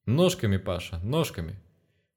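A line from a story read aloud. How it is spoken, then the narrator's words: Chuckling forest spirit. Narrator (Russian): хохотнул леший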